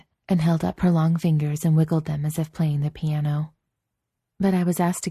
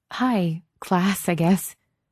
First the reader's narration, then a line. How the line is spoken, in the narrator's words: she giggled and said